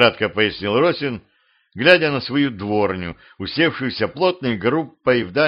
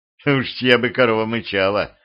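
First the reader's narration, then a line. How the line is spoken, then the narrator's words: Snorting guest. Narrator (Russian): хмыкнул гость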